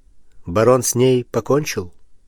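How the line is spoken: Plain. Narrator (Russian): спросил Пушкин

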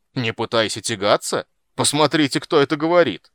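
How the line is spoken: Very loud dwarf yell. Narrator (Russian): Гном заорал так громко

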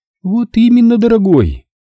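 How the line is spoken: Triumphant female exclamation. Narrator (Russian): торжествующе воскликнула она

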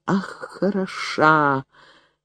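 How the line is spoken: Quiet. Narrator (Russian): тихо сказал он

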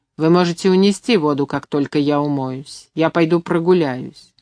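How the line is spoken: Cold, over shoulder. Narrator (Russian): холодно бросила через плечо

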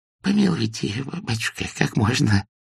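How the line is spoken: Babbling plea. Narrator (Russian): залепетал Тимофеич

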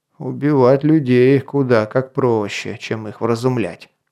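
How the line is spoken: Grumbling. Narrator (Russian): проворчал северянин

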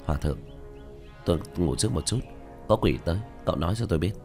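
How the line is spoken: Soft mumble. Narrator (Vietnamese): Tiểu Thất lẩm bẩm, nhẹ nói

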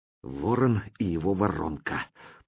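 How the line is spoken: Whisper. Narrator (Russian): прошептал я

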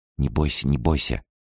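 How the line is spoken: Whisper. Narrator (Russian): прошептала

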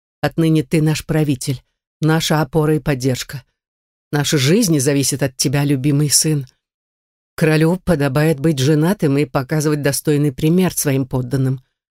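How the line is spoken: Muffled trembling woman's voice. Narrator (Russian): глухо произнесла женщина дрожащим голосом

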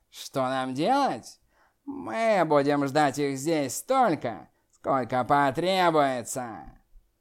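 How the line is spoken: Cold, indifferent demon laugh. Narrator (Russian): Черный демон рассмеялся холодно и равнодушно

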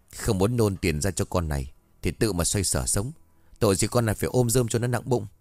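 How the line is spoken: Huffy muttering. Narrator (Vietnamese): Thím hừ một tiếng lẩm bẩm trong miệng

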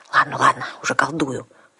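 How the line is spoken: Promising. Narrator (Russian): пообещала я

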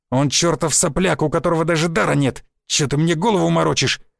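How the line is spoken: Snarling. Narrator (Russian): зарычал

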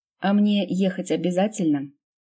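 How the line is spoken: Grumbling. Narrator (Russian): ворчала мама

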